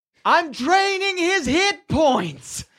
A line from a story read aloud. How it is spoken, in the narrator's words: You hear her yell out